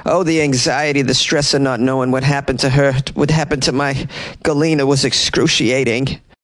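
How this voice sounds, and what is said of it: Put-on Long Island accent. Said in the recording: “Not sure why I gave Carrie a Long Island accent. I just thought it would be appropriate.”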